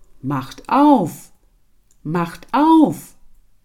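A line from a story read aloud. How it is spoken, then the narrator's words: Heavy creature calling. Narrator (German): kam etwas mit schwerem Schritte, rief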